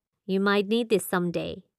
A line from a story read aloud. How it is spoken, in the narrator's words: he said